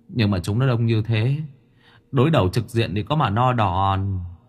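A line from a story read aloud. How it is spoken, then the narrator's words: Sighing. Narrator (Vietnamese): Lão nhị thở dài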